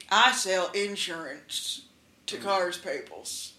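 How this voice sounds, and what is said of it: Exaggerated country twang. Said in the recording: “he sounds like a country guy... You're doing a little bit too much... twang... Too much twang.”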